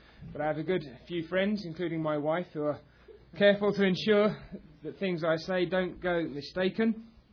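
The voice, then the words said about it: Non-native English accent. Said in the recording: “As you will hear from my accent, I am not a native of this country”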